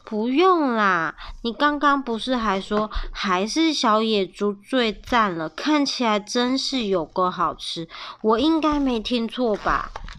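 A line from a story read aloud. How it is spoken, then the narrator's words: Quiet. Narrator (Chinese): 比尔小声的回答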